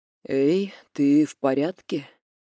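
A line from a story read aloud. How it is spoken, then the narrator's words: Hoarse, labored breathing, close. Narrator (Russian): у самого уха хриплый голос Демьяна с надсадным дыханием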